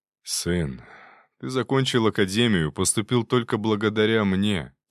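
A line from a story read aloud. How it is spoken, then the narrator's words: Heavy sigh. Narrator (Russian): тяжело вздохнул отец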